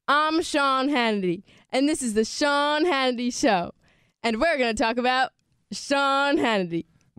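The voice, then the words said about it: Good impression of Sean Hannity. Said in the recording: “does a great impression of that ... Of Sean Hannity ... She does a good one”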